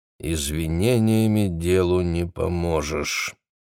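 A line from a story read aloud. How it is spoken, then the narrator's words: Dull, lifeless. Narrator (Russian): глухо и безжизненно ответила Шарлотта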